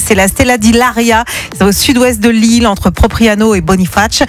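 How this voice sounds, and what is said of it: Put-on Corsican accent. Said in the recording (French): “T'as vachement bossé l'accent corse.”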